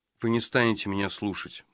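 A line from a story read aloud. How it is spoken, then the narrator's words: Gloomy, dejected. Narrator (Russian): мрачно сказал он, упав духом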